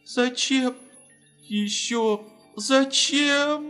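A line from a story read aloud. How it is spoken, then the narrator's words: Sobbing. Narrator (Russian): Рыдала она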